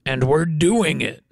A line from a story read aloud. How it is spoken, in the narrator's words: growled Super Bear